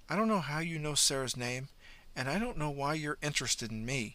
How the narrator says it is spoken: Marnie said quietly

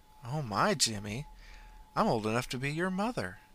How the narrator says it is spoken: In a playful tone, she said

